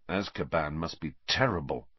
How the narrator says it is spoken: Harry muttered

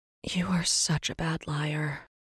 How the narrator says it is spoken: Rin sighed

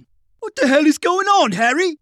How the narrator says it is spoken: Tommy cried

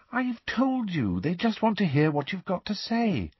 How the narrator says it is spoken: said Hermione soothingly

